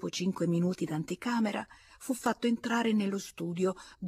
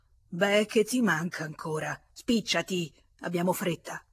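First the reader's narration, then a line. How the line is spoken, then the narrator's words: Friend's furious growl. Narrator (Italian): L'amico, furibondo, ringhiò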